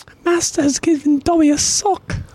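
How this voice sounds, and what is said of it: Dobby impression. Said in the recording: “did he nail that impression? I want to say yes. I think that was pretty good ... Did Master do a good Dobby impression? ... I definitely pictured Dobby”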